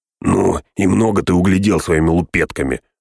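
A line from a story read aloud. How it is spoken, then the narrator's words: Snapping back. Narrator (Russian): огрызнулся другой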